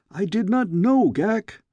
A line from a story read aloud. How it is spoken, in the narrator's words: I cried